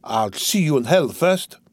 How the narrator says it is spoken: he cried

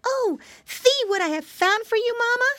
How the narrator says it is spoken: exclaimed

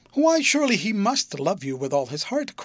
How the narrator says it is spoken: cried Helena, with an earnestness that threatened to blaze into ferocity if he didn't

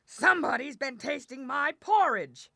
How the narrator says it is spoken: the big bear he growled out

